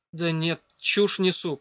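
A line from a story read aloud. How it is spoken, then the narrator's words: Mutter. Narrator (Russian): пробормотала Катя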